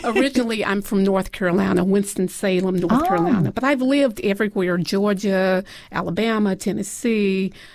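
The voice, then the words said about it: Southern American accent. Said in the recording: “you might detect a Southern accent ... Yes, I do. I hear it.”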